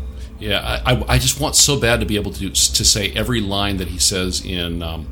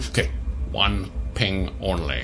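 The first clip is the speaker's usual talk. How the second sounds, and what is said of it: Failed Scottish film-star impression, villainous. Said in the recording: “I can't do a good Sean Connery. It's a Scottish accent. ... you sound like a supervillain. You don't sound like Bond. ... you do sound like Dr. Evil.”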